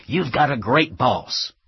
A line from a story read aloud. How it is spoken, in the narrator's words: the clueless candidate cheerfully exclaimed